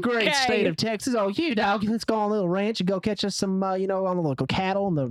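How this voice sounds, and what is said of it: Exaggerated Texan accent. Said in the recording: “I didn't know what your Texan accent sounded like, but I'm a little disappointed.”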